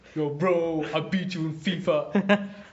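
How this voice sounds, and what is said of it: Mocking bro-style gamer accent. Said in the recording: “there's also an accent attached with that ... that's the toxic masculinity accent.”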